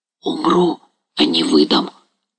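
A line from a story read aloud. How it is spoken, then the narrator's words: Old man whispering. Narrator (Russian): прошептал старик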